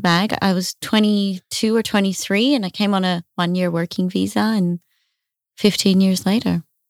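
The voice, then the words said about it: Australian accent. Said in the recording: “That's where the accent's from ... her accent lets her get away with everything”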